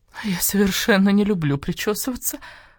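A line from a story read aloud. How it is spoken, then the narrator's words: Moaning. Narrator (Russian): простонала Маркиза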